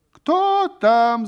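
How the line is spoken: Woman shouting. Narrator (Russian): закричала кумова жена, услышав шум в сенях

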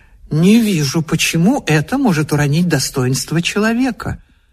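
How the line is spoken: Calm objection. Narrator (Russian): Муж спокойно возразил

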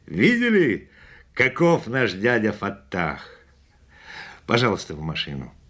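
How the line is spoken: Laughing. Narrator (Russian): Засмеявшись, он сказал

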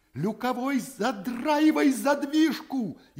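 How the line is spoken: Frantic scream. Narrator (Russian): истошно вопит Шахматов

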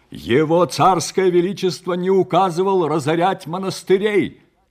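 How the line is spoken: Loud interruption, monk. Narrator (Russian): Также громко перебил его чернец

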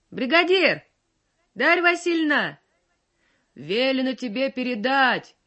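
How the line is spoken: Old man shouting from horseback. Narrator (Russian): прокричал ей с коня пожилой и тоже весь мокрый старик

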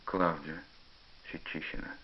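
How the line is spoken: Hesitant sighing confession. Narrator (Russian): Пашка помолчал еще некоторое время, а потом вздохнул и признался

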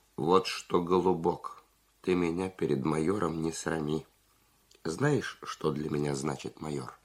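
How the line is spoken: Calm but resolute. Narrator (Russian): Зубарев спокойно, но решительно сказал

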